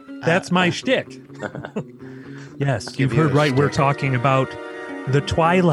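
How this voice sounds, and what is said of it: Usual voice. Nothing is said of it.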